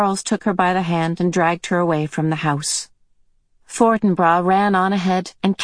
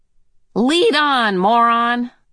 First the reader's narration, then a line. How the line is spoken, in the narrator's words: Calvin cried gaily